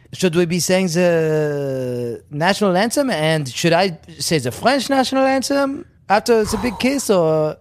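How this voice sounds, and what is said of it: Put-on French accent. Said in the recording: “I do the fucking French accent.”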